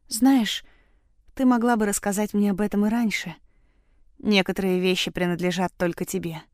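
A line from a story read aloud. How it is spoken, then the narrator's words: Tired and sleepy. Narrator (Russian): говорит устало и сонно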